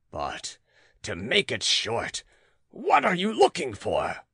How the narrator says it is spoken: roared the caged lion

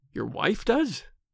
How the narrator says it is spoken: exclaimed Tom, startled

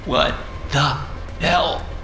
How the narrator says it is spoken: I gasped weakly

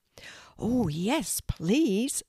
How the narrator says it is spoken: said Kelty excitedly

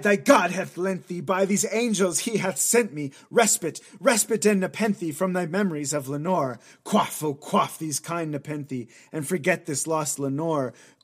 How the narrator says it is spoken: cried

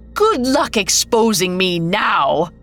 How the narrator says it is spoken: she howled

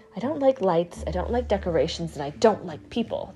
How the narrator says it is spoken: the tree whispered

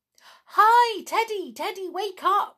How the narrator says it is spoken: shouted in excitement

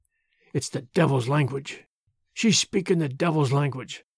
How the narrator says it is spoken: She muttered constantly

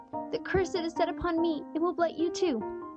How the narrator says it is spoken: sobbed Joel

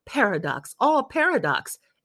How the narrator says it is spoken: exclaimed Albert

